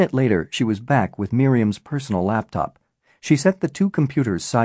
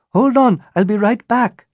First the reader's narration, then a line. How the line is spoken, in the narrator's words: Natasha yelled back